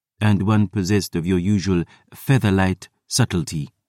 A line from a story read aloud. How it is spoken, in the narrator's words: the historian murmured